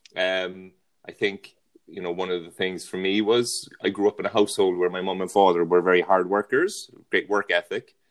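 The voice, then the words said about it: Irish accent, from Cork. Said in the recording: “my accent, I'm from Ireland, um, born and raised in County Cork, which is in the south of Ireland”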